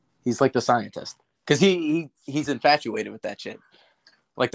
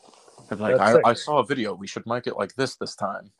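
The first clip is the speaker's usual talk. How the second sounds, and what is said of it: Imitation of a friend. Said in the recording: “That's a good impression.”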